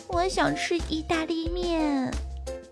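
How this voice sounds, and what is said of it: Very small, quiet voice. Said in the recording (Chinese): “用很小、很小、很小、很小的声音说”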